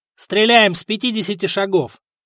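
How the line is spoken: Curt. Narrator (Russian): бросил Добрята

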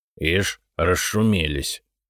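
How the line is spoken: Muttered. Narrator (Russian): пробормотал Игнат

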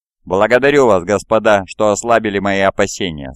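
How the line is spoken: Plain. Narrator (Russian): сказал он

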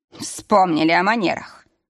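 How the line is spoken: Snort. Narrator (Russian): хмыкнул Игнат

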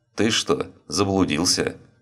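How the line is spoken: Perfectly calm question. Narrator (Russian): Совершенно спокойно, как будто ничего не произошло, спросил охранник

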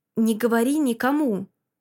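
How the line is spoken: Through clenched teeth. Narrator (Russian): Садит сквозь зубы

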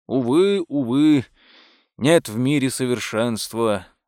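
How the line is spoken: Sigh. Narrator (Russian): вздохнул

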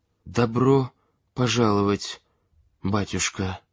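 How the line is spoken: Barely audible babble. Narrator (Russian): еле слышно пролепетала невестка

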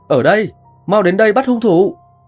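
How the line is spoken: Weak desperate male cry. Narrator (Vietnamese): tiếng kêu thất thanh nhưng yếu ớt của đàn ông gào lên

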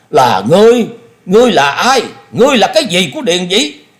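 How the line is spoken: Exasperated roar. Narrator (Vietnamese): Thôi Công Đức hết nhịn nổi, y gầm lên

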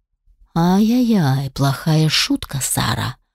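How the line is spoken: Said through gritted teeth. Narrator (Russian): процедил Алишер

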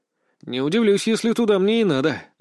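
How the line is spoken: Sighing. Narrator (Russian): вздохнул я

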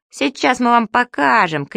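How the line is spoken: Shouting. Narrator (Russian): крикнул он

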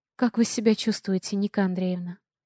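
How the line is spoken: Gentle doctor asking. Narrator (Russian): ласково спрашивает врач

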